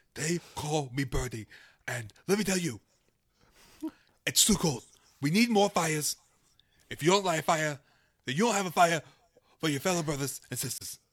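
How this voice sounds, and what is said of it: Comic character voice like a politician. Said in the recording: “I've never heard you do that voice before. ... You're possessed by a political figure. ... At first I thought you were Scarface”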